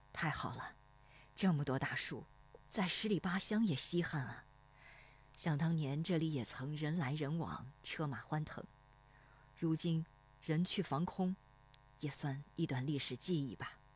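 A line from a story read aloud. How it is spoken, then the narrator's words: Sighing. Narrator (Chinese): 罗生叹息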